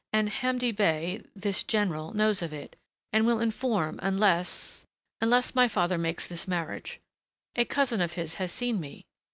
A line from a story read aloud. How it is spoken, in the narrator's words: she faltered